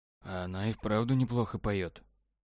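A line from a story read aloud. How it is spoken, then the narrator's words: Whispering. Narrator (Russian): шепотом сказал Павел Насте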